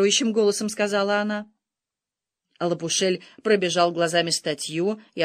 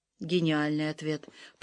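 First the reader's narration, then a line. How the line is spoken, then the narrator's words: Hiss. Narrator (Russian): прошипела Соланж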